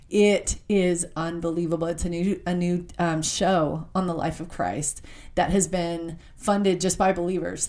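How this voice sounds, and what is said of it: Choked-up, emotional voice. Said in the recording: “I'm getting choked up.”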